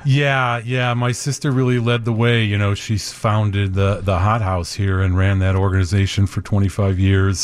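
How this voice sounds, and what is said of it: Rich broadcaster-like radio voice. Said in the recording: “you got a great radio voice.”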